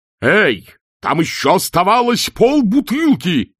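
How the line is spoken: Roaring. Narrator (Russian): взревел чудакулли

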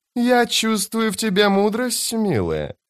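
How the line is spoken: Cooing. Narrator (Russian): проворковал Наваль

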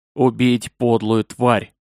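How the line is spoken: Clipped, emphatic. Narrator (Russian): отчеканивает Надим

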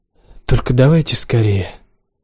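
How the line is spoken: Tired mumble. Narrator (Russian): пробормотала я устало

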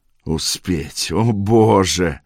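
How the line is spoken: Moan. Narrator (Russian): простонал Борт

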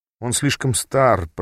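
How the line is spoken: Muttered to oneself. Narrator (Russian): пробормотал я про себя

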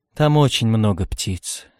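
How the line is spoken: Calm. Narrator (Russian): сказал спокойно Камил

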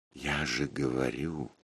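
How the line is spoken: Quiet. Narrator (Russian): сказал я тихо

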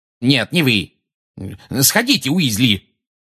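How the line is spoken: Barked. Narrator (Russian): гаркнул Фадж

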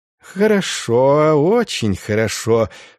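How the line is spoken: Drawl with perverse glee. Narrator (Russian): с какой-то извращенной радостью протянул Инститорис

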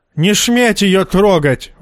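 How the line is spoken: Goat's spluttering shriek. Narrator (Russian): вопил козел, брызгая слюной

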